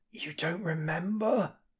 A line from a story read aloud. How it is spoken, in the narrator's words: He rasps hoarsely